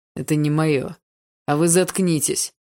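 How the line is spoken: Loud bark. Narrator (Russian): Рявкнул он так, что одноклассники действительно замолчали

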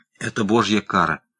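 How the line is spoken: Hoarse exclamation. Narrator (Russian): хрипло воскликнул Бигнал

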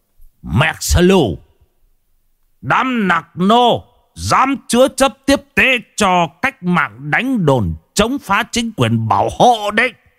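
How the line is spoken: Loud accented bellow. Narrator (Vietnamese): Thằng đồn trưởng quát ầm ầm bằng giọng tiếng Việt lơ lớ

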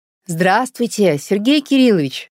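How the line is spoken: Loud. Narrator (Russian): громко сказала Наташа

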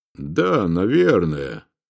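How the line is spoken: Sighed. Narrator (Russian): вздохнул он

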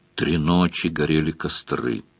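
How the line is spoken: Demon muttering from behind. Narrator (Russian): бормотал за спиной радужный демон

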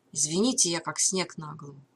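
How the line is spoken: Said softly. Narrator (Russian): мягко произнес Мелз

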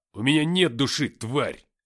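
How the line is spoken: Barked. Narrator (Russian): рявкнул я

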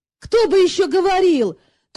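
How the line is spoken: Indignant exclamation. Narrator (Russian): негодующе воскликнул он

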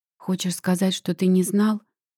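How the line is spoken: Quiet question. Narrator (Russian): спрашиваю тихо

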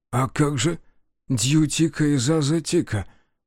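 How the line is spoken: Confused faltering babble. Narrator (Russian): пролепетал Тиму все так же растерянно

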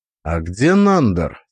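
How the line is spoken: Plain. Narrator (Russian): спросил я

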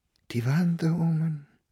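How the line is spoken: Whispered. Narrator (German): flüsterte Fräulein Gasteiner

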